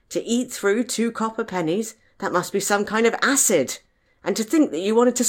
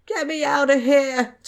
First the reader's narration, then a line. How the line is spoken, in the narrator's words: Tom whimpered